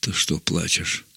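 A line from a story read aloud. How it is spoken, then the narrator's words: Old man's whispered question. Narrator (Russian): шепотом спросил старик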